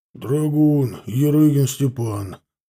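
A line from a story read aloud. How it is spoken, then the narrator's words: Deep bass voice. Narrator (Russian): пробасил рыжеволосый веснущатый крепыш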